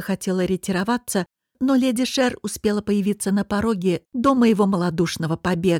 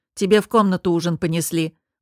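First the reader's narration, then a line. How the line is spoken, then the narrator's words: Grumbled. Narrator (Russian): буркнула Велица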